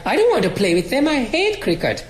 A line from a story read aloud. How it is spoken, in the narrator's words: And I too cried